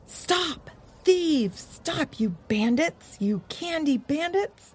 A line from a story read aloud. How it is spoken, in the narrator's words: They heard voices from down the road yell